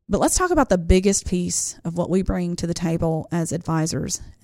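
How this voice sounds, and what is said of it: Country accent. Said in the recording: “my country accent hit there hard”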